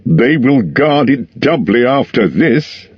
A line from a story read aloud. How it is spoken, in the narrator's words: he laughed